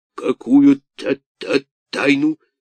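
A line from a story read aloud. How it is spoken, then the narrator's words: Stammering question. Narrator (Russian): спросил он, заикаясь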